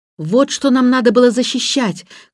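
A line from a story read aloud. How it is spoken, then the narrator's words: Shouted. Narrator (Russian): крикнул он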